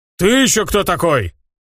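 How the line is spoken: Roaring. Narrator (Russian): взревел орк

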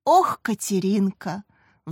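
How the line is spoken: Sigh. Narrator (Russian): вздохнула Рита, увидев зареванную сестру

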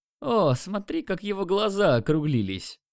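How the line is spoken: Cheerful. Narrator (Russian): Весело сказал он

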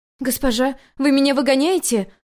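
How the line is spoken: Horrified exclamation. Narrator (Russian): в ужасе воскликнула Инло

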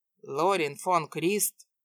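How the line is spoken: Stern question. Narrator (Russian): строго спросил один из них

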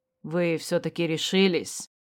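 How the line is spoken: Man's whisper. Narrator (Russian): Прошептал человек

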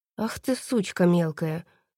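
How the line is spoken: Through gritted teeth. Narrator (Russian): процедил Марат

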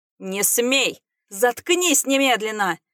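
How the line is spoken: Father screaming. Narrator (Russian): Завопил отец

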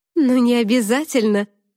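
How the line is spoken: Snorted. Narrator (Russian): фыркнула Тата

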